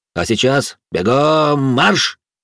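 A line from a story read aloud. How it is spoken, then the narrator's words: Barked command. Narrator (Russian): гаркнул я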